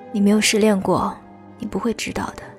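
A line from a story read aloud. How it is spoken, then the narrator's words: Sighing. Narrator (Chinese): 他叹气道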